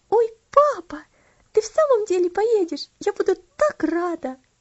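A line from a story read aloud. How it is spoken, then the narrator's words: Delighted exclamation. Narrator (Russian): восторженно воскликнула она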